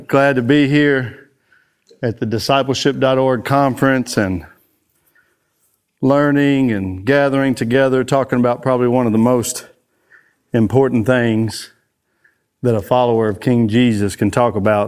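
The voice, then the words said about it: Out of breath, speaking slowly. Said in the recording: “I'm a little out of breath right now. That's why I'm talking a little slow.”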